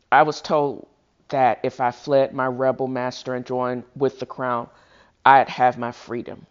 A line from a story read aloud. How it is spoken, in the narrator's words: she said